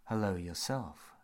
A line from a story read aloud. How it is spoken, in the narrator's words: she purred